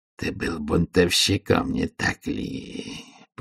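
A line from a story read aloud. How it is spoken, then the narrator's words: Hissing. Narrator (Russian): прошипел карцер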